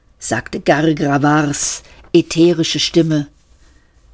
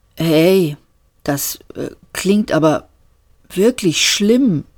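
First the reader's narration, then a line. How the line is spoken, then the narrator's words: Stammering. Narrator (German): stammelte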